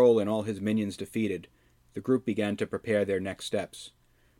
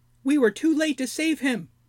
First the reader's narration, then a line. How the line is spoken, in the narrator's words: whined Snoke